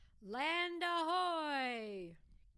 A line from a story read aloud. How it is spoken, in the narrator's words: Captain Steele shouted